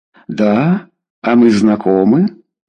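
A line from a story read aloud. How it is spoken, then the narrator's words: Uncertain question. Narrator (Russian): неуверенно спросил он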